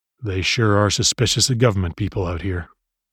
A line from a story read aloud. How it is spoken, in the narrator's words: muttered to his son